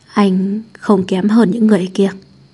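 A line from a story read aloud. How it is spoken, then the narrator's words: Hoarse voice. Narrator (Vietnamese): Anh, âm thanh khàn khàn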